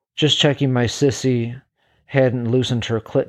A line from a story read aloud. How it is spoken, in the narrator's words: said